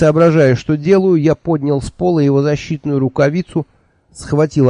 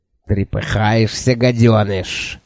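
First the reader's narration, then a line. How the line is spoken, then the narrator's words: Hissing creature. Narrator (Russian): прошипело существо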